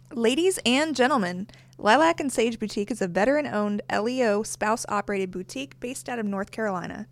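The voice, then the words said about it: Southern US twang. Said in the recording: “She's got that little twang. North Carolina. She didn't think she had an accent, but I always pointed it out anyway. She's got that Missouri twang going on.”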